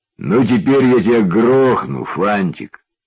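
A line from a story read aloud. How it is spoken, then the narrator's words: Grim. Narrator (Russian): мрачно сказал Лёлик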